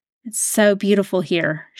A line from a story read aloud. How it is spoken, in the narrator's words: murmured